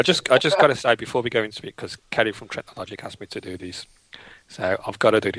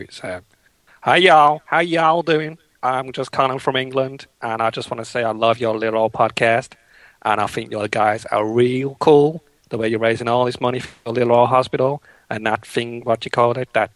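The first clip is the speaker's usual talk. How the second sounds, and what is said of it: Put-on Texan accent. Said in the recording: “I've got to talk Texan.”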